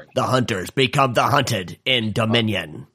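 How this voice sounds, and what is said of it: Old-school movie trailer voice. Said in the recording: “Are you trying like this old school like grindhouse trailer voice or something? ... But you failed.”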